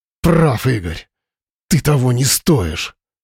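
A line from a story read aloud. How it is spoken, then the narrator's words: Furious hiss. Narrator (Russian): С яростью прошипел Вадим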